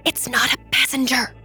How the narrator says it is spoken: Jackie hissed under her breath

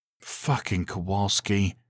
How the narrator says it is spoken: he muttered

